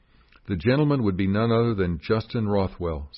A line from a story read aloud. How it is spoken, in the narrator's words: said Henry